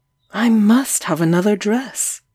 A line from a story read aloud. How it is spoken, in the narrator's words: I cried